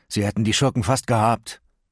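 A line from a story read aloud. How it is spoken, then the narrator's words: Groaned. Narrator (German): stöhnte Miles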